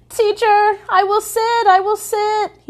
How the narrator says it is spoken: he cried

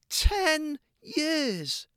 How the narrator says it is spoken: exclaimed Gabe

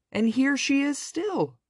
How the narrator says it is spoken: squeaked the baby bear joyfully

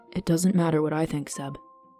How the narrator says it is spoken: Vivin replied quietly

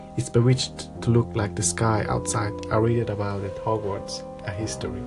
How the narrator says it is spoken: Hermione whisper

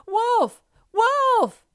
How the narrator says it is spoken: shouting at the top of his voice

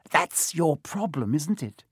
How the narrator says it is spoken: said Filch, his voice cracking with glee

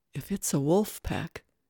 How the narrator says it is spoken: his voice was a whisper

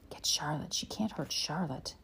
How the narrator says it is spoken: Mary whispered

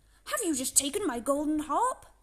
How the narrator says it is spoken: cried the troll

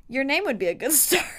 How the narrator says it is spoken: Niall said, laughing

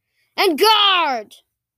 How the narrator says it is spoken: yelled

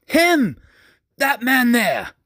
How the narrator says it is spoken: The old man, his face seemed to light up with a newfound youth as he bellowed

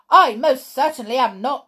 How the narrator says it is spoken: he shouted

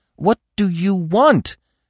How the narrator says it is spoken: Bambi cried, beside himself with impatience

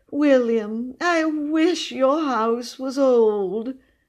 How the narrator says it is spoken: she said sadly

